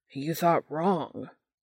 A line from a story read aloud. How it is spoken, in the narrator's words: Almost angry, Dean growls